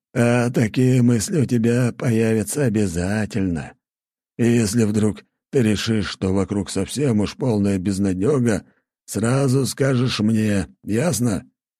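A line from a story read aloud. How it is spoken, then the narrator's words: Hoarse rasp. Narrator (Russian): прохрипел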